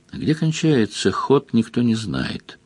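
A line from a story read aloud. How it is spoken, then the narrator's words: Quiet giant monk. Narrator (Russian): тихо сказал великан-монах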